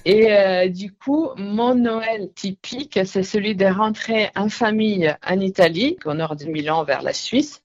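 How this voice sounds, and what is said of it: Italian accent speaking French. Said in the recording (French): “je suis italienne, mon accent me trahit.”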